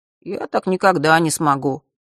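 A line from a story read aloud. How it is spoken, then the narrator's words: Dejected objection. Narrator (Russian): уныло возразил Миша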